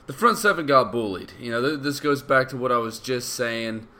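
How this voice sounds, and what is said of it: Congested voice from a cold. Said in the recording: “I'm working over a cold right now, so I apologize in advance about the way my voice sounds.”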